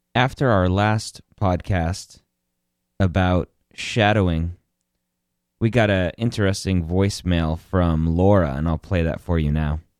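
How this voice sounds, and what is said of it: Slightly weird, cold-affected voice. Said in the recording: “if my voice sounds a little weird. I am battling a little cold”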